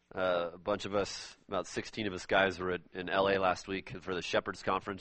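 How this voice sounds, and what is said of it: Slightly hoarse voice. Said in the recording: “My voice is a little hoarse ... My poor lungs are not used to the smog.”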